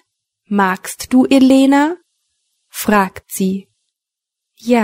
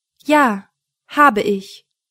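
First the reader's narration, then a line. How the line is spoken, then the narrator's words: Cold. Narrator (German): sagt sie kalt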